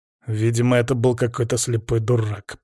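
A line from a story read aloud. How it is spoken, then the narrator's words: Angry growl. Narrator (Russian): прорычал, разозленный тем, что меня отвлекли от работы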